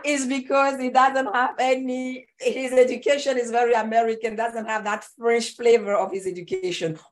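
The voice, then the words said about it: French-accented English. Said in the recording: “Everything sounds better in French ... your accent”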